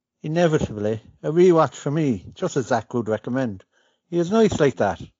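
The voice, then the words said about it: Irish accent. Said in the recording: “you get to hear some true Irish accent”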